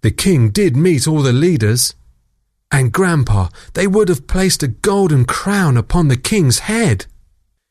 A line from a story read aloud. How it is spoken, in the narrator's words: sighed Grandpa